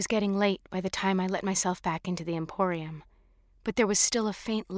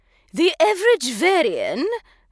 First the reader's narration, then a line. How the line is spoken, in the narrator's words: said loudly, slurring her words